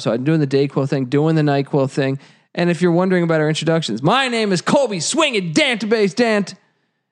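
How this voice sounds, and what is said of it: Rough, messed-up sick voice. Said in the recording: “my voice is a little messed up”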